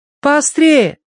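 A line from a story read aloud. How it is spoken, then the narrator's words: Call after someone. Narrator (Russian): крикнула вслед Киврин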